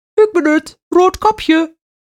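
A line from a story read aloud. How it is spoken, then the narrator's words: Lying in high little voice. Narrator (Dutch): jokte de wolf met een hoog stemmetje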